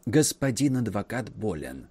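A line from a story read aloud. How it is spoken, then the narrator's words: Whisper from behind. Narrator (Russian): раздался шепот у них за спиной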